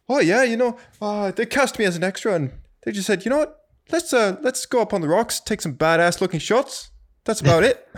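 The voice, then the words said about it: Poor New Zealand accent, sounds Irish. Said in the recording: “That's a terrible New Zealand accent ... it's not very good ... it's very Irish”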